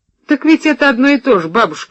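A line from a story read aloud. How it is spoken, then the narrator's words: Laughing. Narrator (Russian): рассмеялся я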